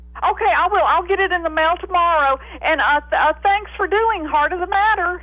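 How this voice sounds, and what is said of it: Woman with Southern American accent. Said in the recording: “Love that accent. This girl with a southern accent.”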